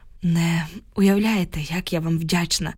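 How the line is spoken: Sigh, holding back tears. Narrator (Ukrainian): зітхнула, ледве стримуючи сльози

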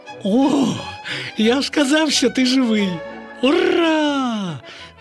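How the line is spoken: Exclaimed. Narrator (Ukrainian): Вигукнув Славко

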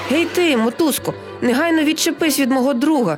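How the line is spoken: Desperate shout. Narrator (Ukrainian): відчайдушно закричав тигрик

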